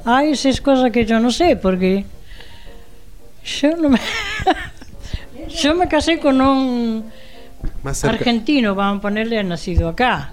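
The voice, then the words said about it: Non-local Spanish accent. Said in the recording (Spanish): “sigue conservando el acento ... Y él hablaba como acá, pero yo no me acostumbro”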